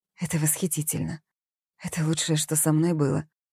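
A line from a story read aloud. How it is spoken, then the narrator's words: Quiet. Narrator (Russian): тихо произнесла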